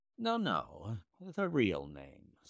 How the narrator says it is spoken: said Holmes sweetly

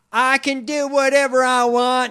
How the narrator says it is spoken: he yelled at

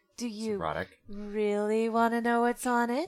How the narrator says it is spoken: Wicked purred

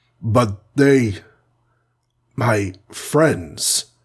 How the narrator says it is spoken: he said brokenly

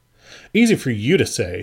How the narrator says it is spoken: she snapped, her lips thin and tight

